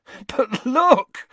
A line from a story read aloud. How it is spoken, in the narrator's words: said Ron, laughing